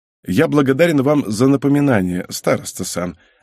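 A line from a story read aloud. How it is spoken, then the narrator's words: Calm ironic reply. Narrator (Russian): ответил он совершенно спокойно, но только дурак не услышал бы в его словах иронию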